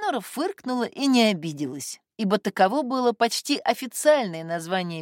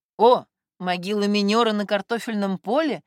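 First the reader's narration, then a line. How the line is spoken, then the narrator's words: Laughing. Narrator (Russian): засмеялся Костя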